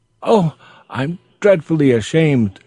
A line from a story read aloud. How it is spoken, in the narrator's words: she exclaimed when she found it out